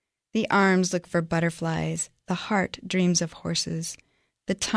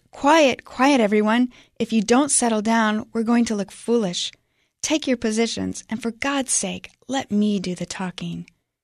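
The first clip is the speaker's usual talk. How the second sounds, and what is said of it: Raised, shouting voice. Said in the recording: “raise my voice, and shout”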